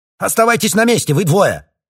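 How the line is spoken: Shout. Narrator (Russian): выкрикнул Грей

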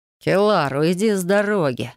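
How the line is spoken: Growled. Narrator (Russian): рыкнул Ириан

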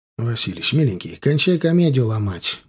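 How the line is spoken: Tired. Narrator (Russian): устало сказал ему

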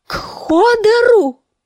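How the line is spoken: Screaming. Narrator (Russian): завопила Санса

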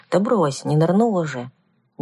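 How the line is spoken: Uncertain, dismissive. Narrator (Russian): неуверенно отмахнулась я

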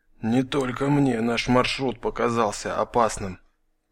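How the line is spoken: Big man whispering. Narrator (Russian): прошептал здоровяк

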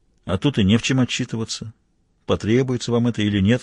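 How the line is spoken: Dry. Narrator (Russian): сухо ответил Мазур

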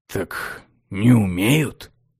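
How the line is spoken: Grumble. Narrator (Russian): буркнул Ароэн

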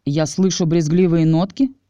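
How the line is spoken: Mocking question. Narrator (Russian): насмешливо спросил я

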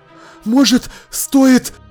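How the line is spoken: Breathless strained words. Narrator (Russian): задыхаясь, выдавил он

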